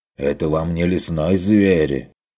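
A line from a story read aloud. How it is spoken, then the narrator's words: Snapping retort. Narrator (Russian): огрызнулся Феликс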